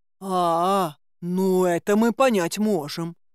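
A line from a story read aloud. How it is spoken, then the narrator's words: Drawling. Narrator (Russian): протянул Горыныч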